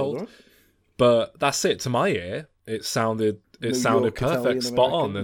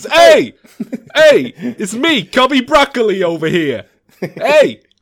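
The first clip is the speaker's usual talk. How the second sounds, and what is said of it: Put-on Italian-American accent. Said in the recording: “I've got a pitch-perfect ear when it comes to Italian-Americans.”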